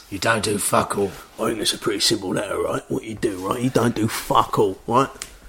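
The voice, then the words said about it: Ray Winstone gangster impression. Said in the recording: “can you do that in the voice of Ray Winston, please?”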